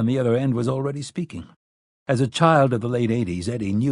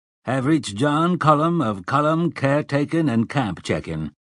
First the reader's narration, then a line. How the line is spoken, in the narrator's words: said Cullum's voice in its familiar slow Yankee drawl